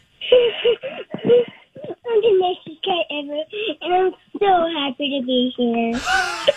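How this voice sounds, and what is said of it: Child's impression of Grant. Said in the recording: “give a quick impersonation of Mom's video ... That's ... doing Grant.”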